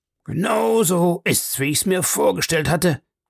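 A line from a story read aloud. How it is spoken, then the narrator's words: Called. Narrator (German): rief Sir Henry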